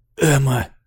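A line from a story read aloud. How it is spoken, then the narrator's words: Strange voice. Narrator (Russian): сказал он чужим голосом, Скотти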